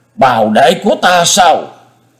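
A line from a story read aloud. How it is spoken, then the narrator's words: Hissing. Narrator (Vietnamese): rít lên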